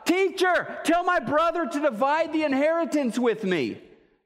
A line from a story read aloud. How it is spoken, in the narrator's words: this guy just shouts out